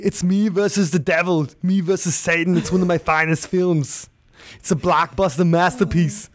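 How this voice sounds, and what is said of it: Arnold Schwarzenegger impression. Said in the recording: “your awesome Arnold Schwarzenegger ... my Arnold Schwarzenegger impersonation”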